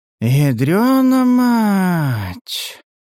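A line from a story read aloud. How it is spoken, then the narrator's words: Breathed out exclamation. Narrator (Russian): выдохнул правый брат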